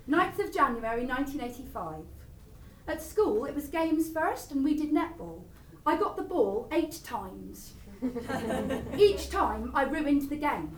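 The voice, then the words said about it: Cornish accent. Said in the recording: “when I read from this diary, I do a Cornish accent.”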